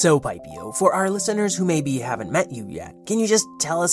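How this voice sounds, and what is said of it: Usual voice. Nothing is said of it.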